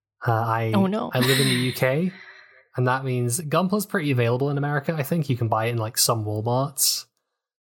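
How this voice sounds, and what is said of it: British accent. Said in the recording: “if you can't tell from my accent, I have the horrible curse of British.”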